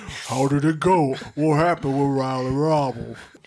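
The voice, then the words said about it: Deep-voiced impression. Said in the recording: “she has a deep voice, I just want to do impression”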